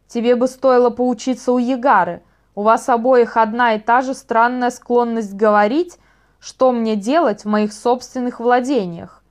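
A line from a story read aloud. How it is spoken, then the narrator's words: Growled reply. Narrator (Russian): прорычал Вайл в ответ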